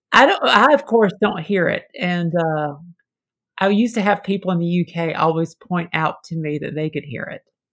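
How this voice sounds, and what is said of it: Slight Southern American accent. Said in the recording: “do I hear a Southern twang ... a little bit of a Southern accent”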